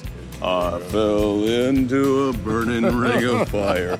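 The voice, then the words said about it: Singing in a very deep voice. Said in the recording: “It's a real deep voice... you can do that and go low”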